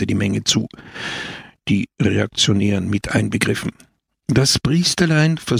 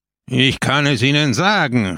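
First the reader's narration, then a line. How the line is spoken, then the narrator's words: Called out. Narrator (German): rief Peppone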